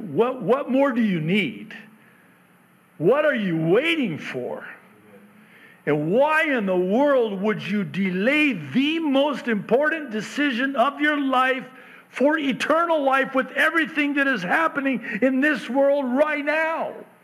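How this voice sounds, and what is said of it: Raised, near-yelling pleading voice. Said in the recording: “I'm not yelling at you. I am kind of”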